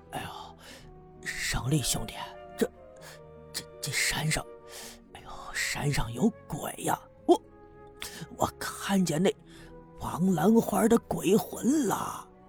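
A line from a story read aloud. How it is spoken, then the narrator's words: Hushed, catching breath. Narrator (Chinese): 使劲的喘匀了气，压低声音对白胜利说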